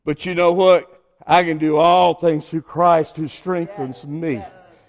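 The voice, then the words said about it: American Southern accent. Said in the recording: “a dumb southern boy with a southern accent”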